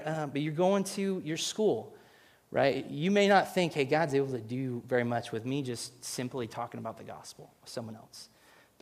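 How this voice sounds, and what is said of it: Choked-up emotional voice. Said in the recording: “sorry, get choked up here”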